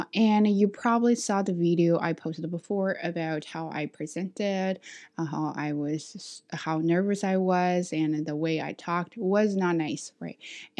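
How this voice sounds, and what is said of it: Non-native English accent. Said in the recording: “when people talk about my accent, a part of me actually think what they said was true”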